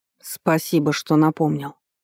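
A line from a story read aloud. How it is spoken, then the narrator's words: Grumbling. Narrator (Russian): проворчал Вард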